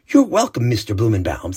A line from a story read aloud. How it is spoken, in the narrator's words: said Shimi